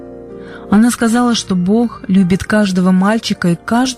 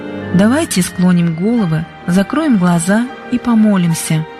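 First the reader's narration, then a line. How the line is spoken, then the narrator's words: Soft, gentle. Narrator (Russian): сказала мягко Конни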